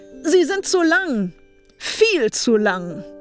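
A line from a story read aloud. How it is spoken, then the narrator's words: Icicle calling after someone. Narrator (German): rief der Eiszapfen hinterher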